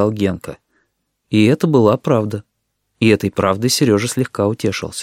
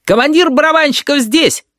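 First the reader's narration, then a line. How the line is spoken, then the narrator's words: Mischievous child's shout. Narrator (Russian): озорно выкрикнул самый младший, Данилка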